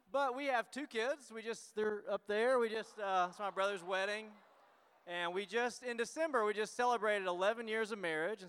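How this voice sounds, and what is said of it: Tennessee Southern American accent. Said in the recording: “we are from Tennessee, and so that's where our accents come from, or maybe mine, I don't know.”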